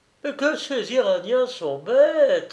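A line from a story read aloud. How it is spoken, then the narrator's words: Woman laughing. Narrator (French): dit la femme en riant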